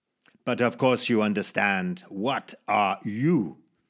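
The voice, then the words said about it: Put-on Zulu accent. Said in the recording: “Please forgive me my Zulu accent. I haven't spoken it in a long time.”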